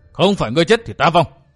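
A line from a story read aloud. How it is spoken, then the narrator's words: Old man's sudden roar. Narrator (Vietnamese): lão bỗng gầm lên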